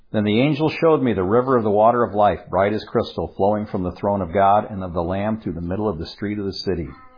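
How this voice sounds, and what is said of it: Noticeable non-local accent. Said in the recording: “Yes, my accent does come through on certain things.”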